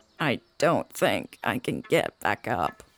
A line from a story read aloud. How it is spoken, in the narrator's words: croaked